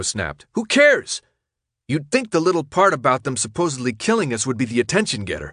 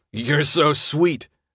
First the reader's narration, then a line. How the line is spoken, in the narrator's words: Frypan said with a snort